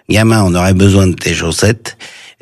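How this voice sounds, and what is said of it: Imitation of Michel Audiard's accent. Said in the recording (French): “Vous prenez bien l'accent.”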